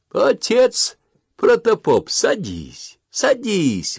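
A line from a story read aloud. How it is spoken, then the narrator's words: Suddenly cheerful. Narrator (Russian): вдруг весело сказал Малюта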